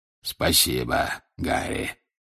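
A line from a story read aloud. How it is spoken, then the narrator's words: Hoarse wheeze. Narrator (Russian): прохрипел Грюм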